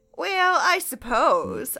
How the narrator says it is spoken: I answered in a slight joking tone

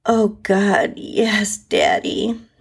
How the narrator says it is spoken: I moaned into the pillow

